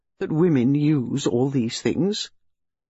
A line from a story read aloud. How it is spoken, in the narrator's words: Inspector Slack, who always knew everything, kindly enlightened him